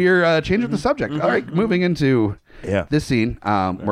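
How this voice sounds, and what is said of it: Usual voice. Nothing is said of it.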